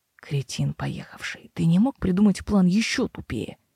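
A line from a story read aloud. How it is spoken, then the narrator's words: Hoarse question. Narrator (Russian): Хрипло поинтересовалась Мэйр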